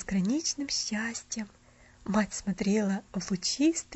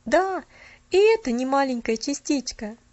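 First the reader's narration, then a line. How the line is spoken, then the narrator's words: Exclamation. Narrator (Russian): воскликнул он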